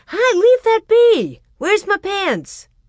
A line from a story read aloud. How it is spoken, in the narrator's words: Royal shouted